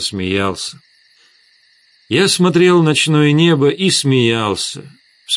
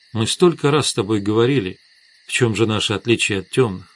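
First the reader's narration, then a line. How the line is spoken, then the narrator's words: Quiet. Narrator (Russian): тихо сказала Светлана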